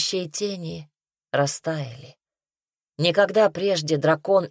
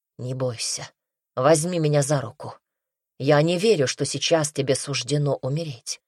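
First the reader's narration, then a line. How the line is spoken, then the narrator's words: Calm. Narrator (Russian): спокойно произнес он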